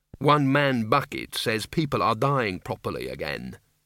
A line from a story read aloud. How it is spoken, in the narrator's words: said Mrs